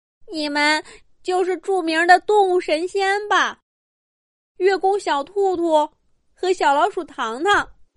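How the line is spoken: Bursting into sobs. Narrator (Chinese): 受伤的人……立刻大哭起来

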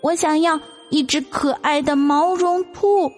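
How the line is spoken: Child shouting. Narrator (Chinese): 弟弟喊

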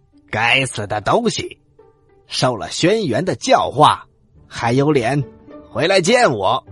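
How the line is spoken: Loud furious shout. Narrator (Chinese): 蚩尤，他大声的喊

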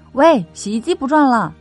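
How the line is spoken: Loud call. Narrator (Chinese): 他又喊了一嗓子

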